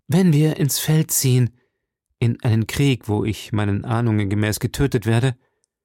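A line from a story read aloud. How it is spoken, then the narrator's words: Melancholy sigh. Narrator (German): seufzte Porthos mit seinem schwermütigsten Ton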